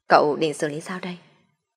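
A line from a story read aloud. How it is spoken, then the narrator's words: Soft question. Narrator (Vietnamese): Điền Điềm khẽ hỏi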